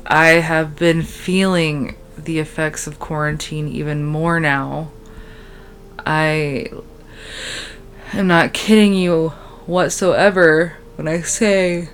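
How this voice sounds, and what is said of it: Weird, tired-sounding voice. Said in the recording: “Why do I sound weird, you may ask? Because I am so tired.”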